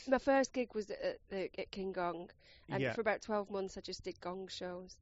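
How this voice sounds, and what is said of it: Rochdale northern English accent. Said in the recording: “because you're from Rochdale, it's obviously a good comedy voice, isn't it? It's a nice accent.”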